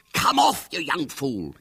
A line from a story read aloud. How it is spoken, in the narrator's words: hissed wildly from behind the scenes